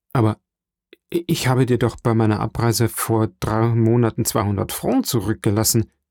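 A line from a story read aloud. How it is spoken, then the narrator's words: Stammering. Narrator (German): stammelte Dantès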